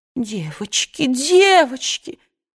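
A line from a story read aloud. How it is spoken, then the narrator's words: Pleading. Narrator (Russian): взмолилась мисс Питтипет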